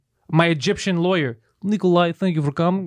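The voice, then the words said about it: Put-on Russian accent. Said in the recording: “He has a Russian accent.”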